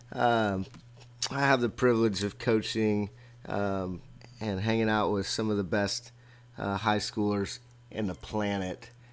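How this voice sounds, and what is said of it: Strained, hoarse voice. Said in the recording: “my voice is a little shot”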